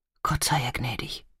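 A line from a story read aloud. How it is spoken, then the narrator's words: Woman whispering. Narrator (German): flüsterte sie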